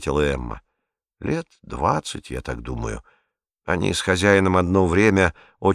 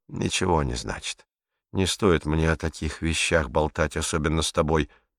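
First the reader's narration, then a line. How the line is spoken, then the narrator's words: Hesitant, sighing. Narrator (Russian): Эмма замялась, а потом вздохнула и сказала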